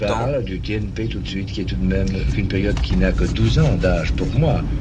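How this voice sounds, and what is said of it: Calm, measured voice, distinctive accent. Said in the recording (French): “cette voix me donne des frissons, vraiment... elle est posée... J'adore cet accent. Il a une transformation de son accent.”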